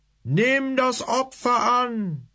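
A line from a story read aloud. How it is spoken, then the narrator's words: Congregation roaring in unison. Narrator (German): stimmte die Gemeinde wie aus einem Munde brüllend ein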